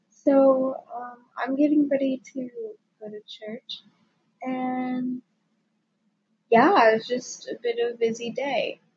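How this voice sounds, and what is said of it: Tired, crackly voice. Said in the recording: “I'm so tired, and I'm sorry if my voice sounds crackly”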